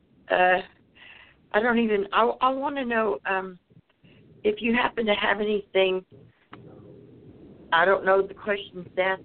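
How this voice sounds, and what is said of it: Speaks with a noticeable accent. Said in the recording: “Gotta love the accent.”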